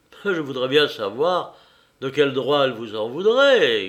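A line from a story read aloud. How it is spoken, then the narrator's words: Grumbled. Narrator (French): grommela-t-il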